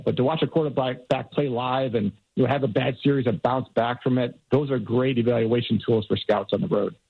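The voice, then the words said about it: Amped-up, energized excited delivery. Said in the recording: “did you hear the old scout come out in his tone of voice right there? He got amped up a little bit ... you got a little pep in your step”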